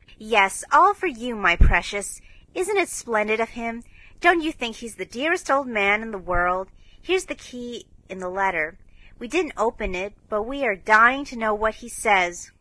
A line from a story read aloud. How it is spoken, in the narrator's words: cried Joe